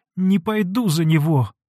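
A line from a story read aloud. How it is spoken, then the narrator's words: Sobbing. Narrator (Russian): молвила, рыдая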